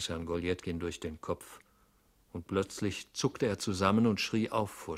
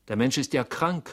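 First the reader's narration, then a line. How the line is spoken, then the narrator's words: Called out. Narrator (German): rief man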